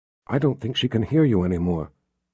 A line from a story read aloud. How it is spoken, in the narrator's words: Jillian whispered